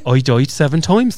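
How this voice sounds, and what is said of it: Put-on Welsh accent. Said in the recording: “Welsh. What's a good accent? ... An anchor phrase for Welsh. ... You can do accents! You really can, though!”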